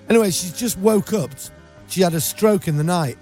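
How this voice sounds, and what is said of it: English accent. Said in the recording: “you hear this English accent ... Got this English accent”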